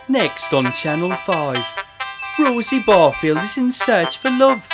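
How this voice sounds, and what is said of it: Put-on Welsh-ish accent, poorly done. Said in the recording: “Wait, that's awful ... I've never tried that accent before ... It's a little bit of Welsh.”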